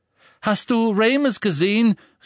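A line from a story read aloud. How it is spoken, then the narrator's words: Called after someone. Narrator (German): rief Tonks ihm nach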